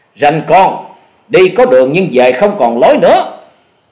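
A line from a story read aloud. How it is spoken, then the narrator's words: Hot-tempered aggressive shout. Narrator (Vietnamese): Hổ Điểu Thần Thủ lão tứ tính tình nóng nảy hùng hổ hét to nói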